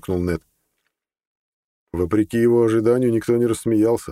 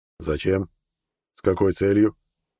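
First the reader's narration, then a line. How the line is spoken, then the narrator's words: Calm surprised old man. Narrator (Russian): спокойно переспросил старик, удивленно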